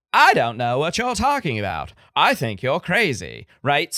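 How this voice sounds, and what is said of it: Katharine Hepburn-style Mid-Atlantic accent. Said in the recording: “Katharine Hepburn ... her accent was very high... Mid-Atlantic of the time, right? So the Mid-Atlantic accent is like ... that blend of Eastern United States, Mid-Atlantic / North Atlantic, maybe not quite New England, and then a few bits and pieces of British pronunciation”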